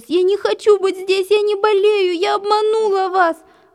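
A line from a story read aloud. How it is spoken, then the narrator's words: Sobbing. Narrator (Russian): Рыдала она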